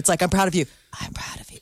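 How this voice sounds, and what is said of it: Whispered. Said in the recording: “the last whisper”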